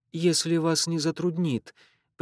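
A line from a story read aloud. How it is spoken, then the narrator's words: Polite, timid addition. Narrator (Russian): прибавил он по обыкновению вежливо и робко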